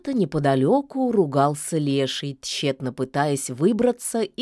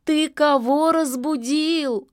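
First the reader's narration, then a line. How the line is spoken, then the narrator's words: Bitter exclamation. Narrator (Russian): с горечью воскликнула яга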